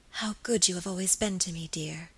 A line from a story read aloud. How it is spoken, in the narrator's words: whispered softly